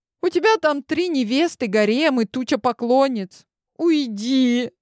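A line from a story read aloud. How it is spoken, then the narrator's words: Pleading. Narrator (Russian): Взмолилась я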